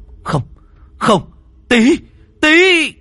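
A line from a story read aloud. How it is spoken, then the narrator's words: Anguished crowd screaming. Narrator (Vietnamese): Tất cả mọi người đau đớn, đến cả đám lính và quan huyện cũng hét toáng lên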